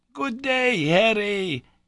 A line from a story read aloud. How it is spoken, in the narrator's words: cried in a joyous tone